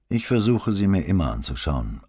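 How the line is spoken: Unchanged even voice. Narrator (German): antwortete Gallo mit unveränderter Stimme

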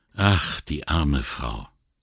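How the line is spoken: Sighing. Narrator (German): seufzte

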